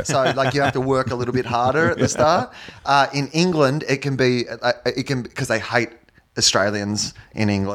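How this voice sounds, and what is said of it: Australian accent. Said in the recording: “your accent ... So in Australia, it's the accent that everybody has.”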